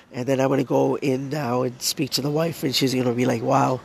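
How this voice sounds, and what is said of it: Worn-out, strained voice. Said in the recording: “I know my voice wasn't this bad earlier”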